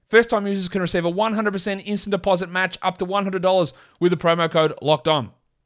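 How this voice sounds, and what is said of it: Strong Australian accent. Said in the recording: “in my full Australian accent.”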